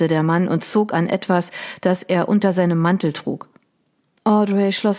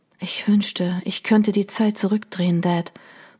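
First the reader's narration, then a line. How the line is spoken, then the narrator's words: Murmur. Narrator (German): murmelte sie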